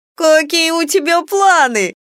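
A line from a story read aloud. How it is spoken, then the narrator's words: Laughing. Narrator (Russian): рассмеялась Кико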